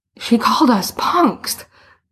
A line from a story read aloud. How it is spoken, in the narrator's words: Boots gasped